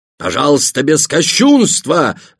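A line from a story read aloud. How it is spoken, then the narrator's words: Several voices shouting. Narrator (Russian): закричали другие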